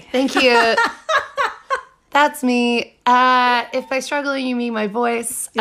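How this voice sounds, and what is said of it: Hoarse, strained laryngitis voice. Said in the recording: “getting over some laryngitis ... I was left with this sexy voice ... sexy laryngitis voice”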